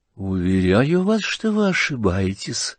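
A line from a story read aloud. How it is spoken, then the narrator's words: Calm, polite. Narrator (Russian): спокойно и вежливо отвечал князь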